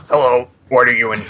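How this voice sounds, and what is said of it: Impression of a TV character. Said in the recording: “That was a really good impression of ... Phineas.”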